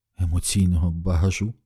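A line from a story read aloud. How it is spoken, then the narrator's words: Whispered. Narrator (Ukrainian): прошепотіла вона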